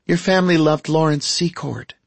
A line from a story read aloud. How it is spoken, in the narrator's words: she said with a sigh